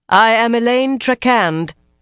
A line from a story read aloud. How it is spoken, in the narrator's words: she announced loudly, surprised at how calm she sounded